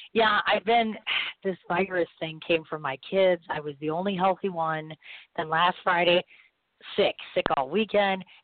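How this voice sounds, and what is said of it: Low, strained voice from illness. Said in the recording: “you can hear all I'm doing. I sound like a boy. ... now my voice is going”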